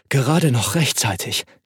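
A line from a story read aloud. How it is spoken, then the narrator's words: Panting. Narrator (German): keuchte Matti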